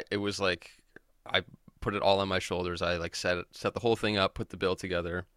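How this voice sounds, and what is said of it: Slightly gravelly voice. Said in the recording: “my voice is a little gravelly today”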